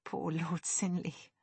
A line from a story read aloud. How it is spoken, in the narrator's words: Lexi whispered